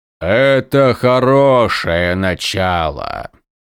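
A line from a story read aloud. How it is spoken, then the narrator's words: Booming. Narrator (Russian): прогремел их учитель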